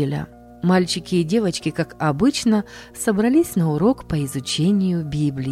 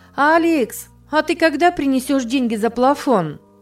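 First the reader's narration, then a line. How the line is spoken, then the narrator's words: Loud girl's question. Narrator (Russian): громко спросила одна из девочек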